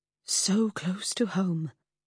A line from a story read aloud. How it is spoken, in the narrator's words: Freddy breathed